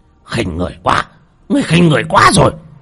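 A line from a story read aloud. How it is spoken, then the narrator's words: Shout. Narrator (Vietnamese): Ông ta hét lên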